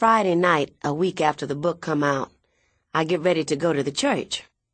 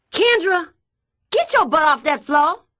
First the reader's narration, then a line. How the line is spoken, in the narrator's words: Minnie holler